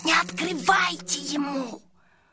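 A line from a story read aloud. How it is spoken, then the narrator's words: Hissed. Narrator (Russian): зашипел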